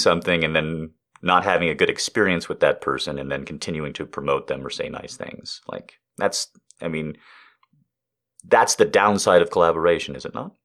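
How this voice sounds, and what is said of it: Texas accent. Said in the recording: “you have amazing Texas accent”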